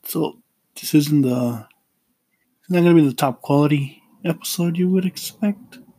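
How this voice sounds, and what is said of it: Sick-sounding voice. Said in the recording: “Please excuse my voice. I'm sick.”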